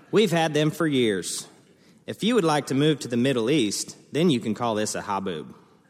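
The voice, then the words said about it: Slight put-on Texas accent. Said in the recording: “I'm going to try and say it in a little bit of an accent because my family lives in Tarzan, Texas. That's real close to Lubbock”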